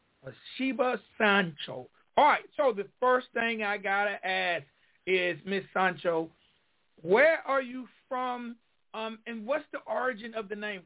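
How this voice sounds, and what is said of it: Strong Southern US drawl. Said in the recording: “I have a very, very serious southern drawl, because I'm from down south”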